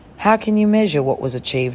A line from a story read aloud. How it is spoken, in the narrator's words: asked